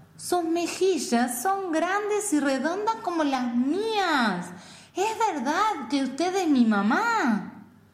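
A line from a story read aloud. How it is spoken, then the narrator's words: Exclaimed. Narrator (Spanish): exclamó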